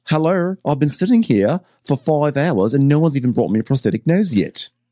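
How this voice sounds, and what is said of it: Put-on Australian accent. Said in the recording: “this is an Australian accent.”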